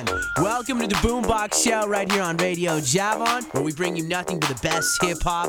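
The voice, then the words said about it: Smooth radio announcer voice. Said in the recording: “You really have that damn radio voice.”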